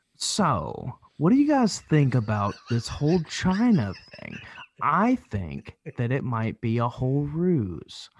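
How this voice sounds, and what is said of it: Impression of a specific person. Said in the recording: “your Greg Bornstein imitation ... an impression”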